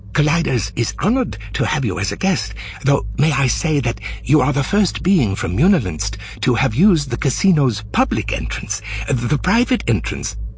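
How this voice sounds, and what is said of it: Flustered voice. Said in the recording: “in a flustered voice”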